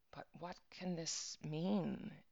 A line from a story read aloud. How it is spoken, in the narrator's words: murmured for the second time